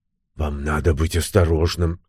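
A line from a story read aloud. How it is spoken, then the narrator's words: Worried tone. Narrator (Russian): озабоченным тоном произнесла леди Кут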